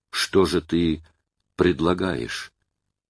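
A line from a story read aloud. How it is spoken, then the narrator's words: Grating whisper. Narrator (Russian): пропилил шепотком Вася Щеглов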